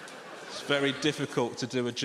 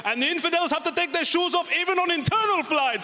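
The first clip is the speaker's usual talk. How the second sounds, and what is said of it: Count from Sesame Street voice. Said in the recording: “generic, inoffensive terrorist accent ... I went for the Count from Sesame Street”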